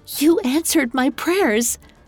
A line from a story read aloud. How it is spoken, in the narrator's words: Elle gasped